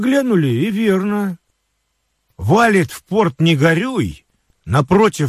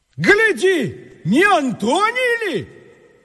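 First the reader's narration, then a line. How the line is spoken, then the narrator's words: Shout. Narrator (Russian): крикнул кто-то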